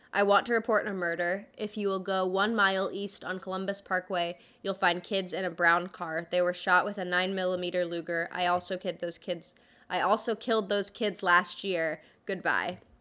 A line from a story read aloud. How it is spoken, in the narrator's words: The caller spoke in an emotionless voice, and he said